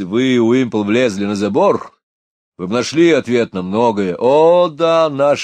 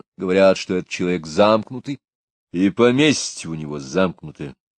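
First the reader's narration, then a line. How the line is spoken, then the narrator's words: Grim. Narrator (Russian): мрачно сказал Патрик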